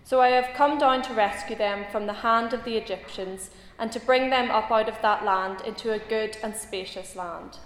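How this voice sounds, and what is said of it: Reads in a distinctive foreign accent. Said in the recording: “reading in such a fine accent. I actually thought I was back in the land flowing with milk and honey there when I heard that.”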